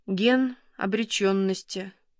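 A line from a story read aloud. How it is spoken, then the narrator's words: Quiet. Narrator (Russian): тихо говорит Кира Владимировна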